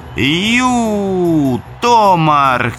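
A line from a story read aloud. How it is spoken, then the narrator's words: Shout to draw attention. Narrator (Russian): крикнул Мануэль, чтобы привлечь внимание быка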